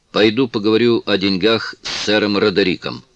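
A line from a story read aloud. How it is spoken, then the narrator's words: Plain. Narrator (Russian): сказал мужчина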